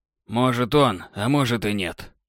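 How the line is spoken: Thoughtful muttering through teeth. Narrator (Russian): после обдумывания процедил О'Галлахан

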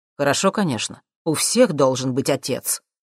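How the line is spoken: Unpleasant tone. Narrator (Russian): каким-то неприятным тоном произнес Джим

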